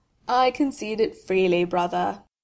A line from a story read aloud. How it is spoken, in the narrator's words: said when he had stopped laughing and had used the cuff of his new sweater to wipe his streaming eyes